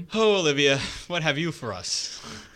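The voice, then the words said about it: Put-on Irish accent. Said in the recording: “I can't do an Irish accent.”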